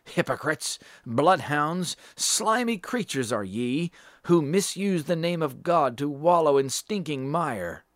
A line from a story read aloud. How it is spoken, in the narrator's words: many voices cried against the papists